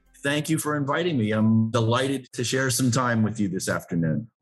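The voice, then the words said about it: Speaks with a noticeable accent. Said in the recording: “the listeners would have picked up on the accent there ... you do have an accent.”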